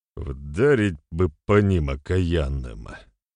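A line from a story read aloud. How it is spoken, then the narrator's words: Through gritted teeth. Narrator (Russian): процедил Добрыня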